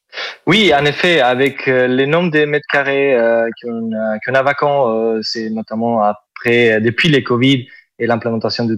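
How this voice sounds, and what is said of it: Southern French accent. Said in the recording (French): “Vous avez un superbe accent ... C'est l'accent donc, du sud ... c'est joli”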